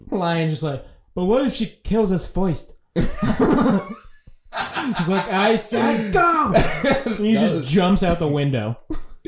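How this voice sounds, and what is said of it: Imitates a character's voice. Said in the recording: “That was a pretty good impression,”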